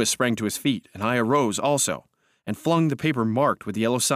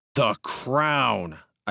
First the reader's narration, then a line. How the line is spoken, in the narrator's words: I said angrily